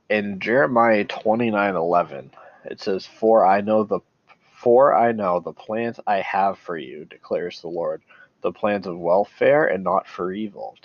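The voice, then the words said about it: Congested, stuffy-nosed voice. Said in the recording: “my voice sounds weird. I have a really stuffed up nose right now.”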